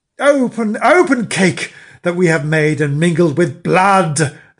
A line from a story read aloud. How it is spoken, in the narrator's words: they cried again